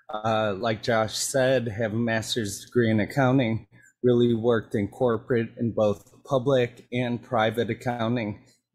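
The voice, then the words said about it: Sick-sounding voice. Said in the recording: “I'm a little sick, so my voice might not come through correct”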